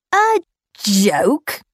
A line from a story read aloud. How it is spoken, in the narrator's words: growled Nkwong